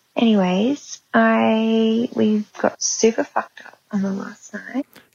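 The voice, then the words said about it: Whispered words. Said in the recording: “I love how she was like, I'm just going to whisper super fucked up... ASMR super fucked up.”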